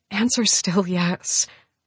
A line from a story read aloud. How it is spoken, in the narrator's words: I murmured